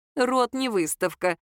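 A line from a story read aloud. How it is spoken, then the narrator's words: Giggling. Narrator (Russian): хихикнула мать Леры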